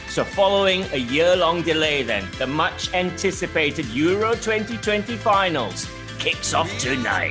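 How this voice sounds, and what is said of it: Exaggerated radio announcer voice. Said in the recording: “That's my best announcer voice.”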